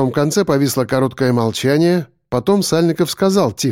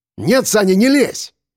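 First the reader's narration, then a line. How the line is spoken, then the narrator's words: Sharp speech. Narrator (Russian): резко сказал я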